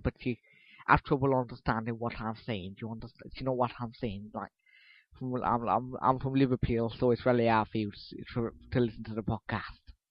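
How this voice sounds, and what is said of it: Put-on Liverpool accent. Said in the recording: “I can do a very good Liverpool accent, see? A very good Liverpool accent ... Back to the normal accent now”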